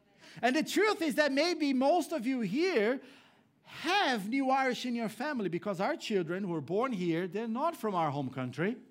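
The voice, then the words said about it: Brazilian-accented English. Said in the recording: “I am from Brazil, but I'm the new Irish. I have this funny accent here”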